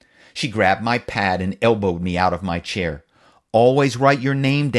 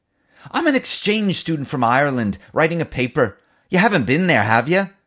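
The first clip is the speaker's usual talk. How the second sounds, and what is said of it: Slight put-on Irish accent. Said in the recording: “She seemed to have put on a slight Irish accent.”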